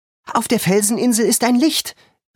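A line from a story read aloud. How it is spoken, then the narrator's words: Agitated shout. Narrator (German): rief George aufgebracht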